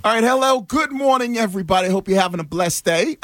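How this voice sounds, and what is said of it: Put-on English accent. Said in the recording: “You went a little English there at the start. ... That was for the London brethren out there.”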